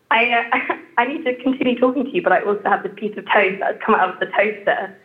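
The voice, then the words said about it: English accent. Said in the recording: “as an English person in my head, my accent just sounds awful in comparison to yours ... Your accent is beautiful.”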